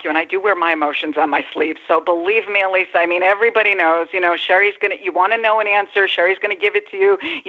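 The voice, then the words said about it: East Coast American accent. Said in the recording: “I love that East Coast accent.”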